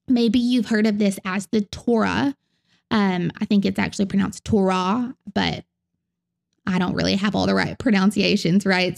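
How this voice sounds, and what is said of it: Southern American accent. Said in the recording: “in my southern accent”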